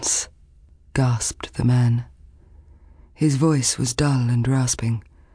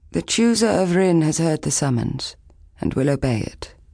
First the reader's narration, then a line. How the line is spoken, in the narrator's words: Lan said calmly